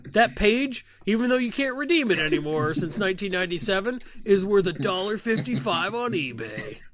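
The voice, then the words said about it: Yelling, raised voice. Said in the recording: “sorry for yelling. I raised my voice.”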